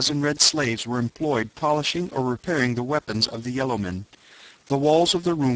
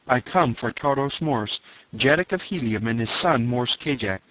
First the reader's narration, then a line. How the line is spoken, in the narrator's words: cried